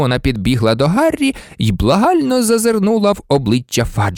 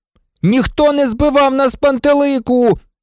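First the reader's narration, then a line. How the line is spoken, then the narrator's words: Shouting. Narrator (Ukrainian): закричав Рон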